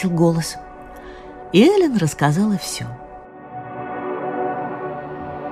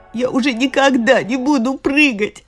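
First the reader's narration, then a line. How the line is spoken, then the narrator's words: Sobbing. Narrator (Russian): всхлипывала она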